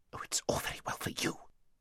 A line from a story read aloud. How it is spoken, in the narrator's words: whispered Aravis rather savagely